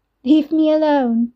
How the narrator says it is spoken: Nicole mimicked, giggling

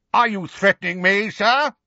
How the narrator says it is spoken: he said, so loudly

